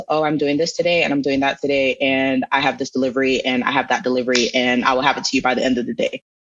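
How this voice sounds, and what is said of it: Flat monotone delivery. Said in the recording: “In meetings, I am now monotone.”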